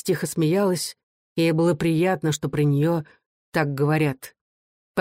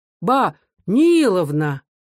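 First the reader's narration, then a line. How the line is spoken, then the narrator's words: Smiling exclamation. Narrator (Russian): воскликнул он, улыбаясь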